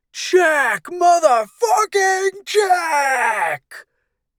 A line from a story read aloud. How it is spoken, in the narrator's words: He screamed